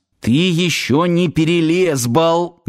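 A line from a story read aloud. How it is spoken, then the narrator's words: Low muffled growl. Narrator (Russian): глухо зарычал Сафонов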